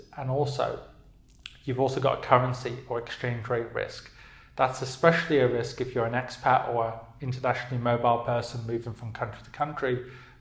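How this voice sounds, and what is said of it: British English accent. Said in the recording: “I'm from the UK, obviously, as you can tell by my accent”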